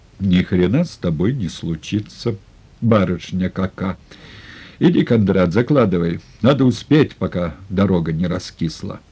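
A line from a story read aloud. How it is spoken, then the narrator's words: Calm. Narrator (Russian): спокойно сказал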